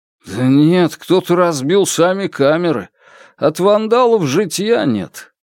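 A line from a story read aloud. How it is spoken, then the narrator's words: Grumbling worker. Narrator (Russian): проворчал один из рабочих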